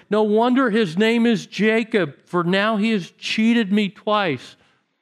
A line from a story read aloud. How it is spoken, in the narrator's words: Esau exclaimed